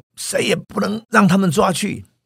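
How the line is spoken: Crowd shouting. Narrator (Chinese): 大家大喊说

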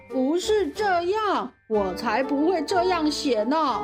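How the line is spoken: Lion speaking loudly. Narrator (Chinese): 狮子听完后，大声地说

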